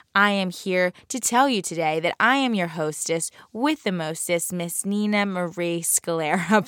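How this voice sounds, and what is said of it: South Jersey accent. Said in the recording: “this awful South Jersey accent”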